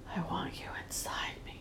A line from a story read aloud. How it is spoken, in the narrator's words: you whisper